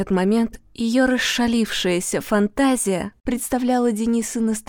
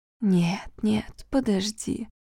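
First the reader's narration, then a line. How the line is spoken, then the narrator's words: Whisper. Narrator (Russian): шептала она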